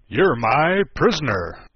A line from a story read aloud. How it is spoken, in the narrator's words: the knight cried